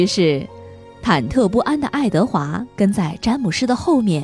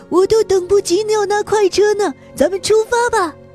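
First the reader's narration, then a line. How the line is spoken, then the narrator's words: Excited shouting. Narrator (Chinese): 詹姆士兴冲冲地嚷道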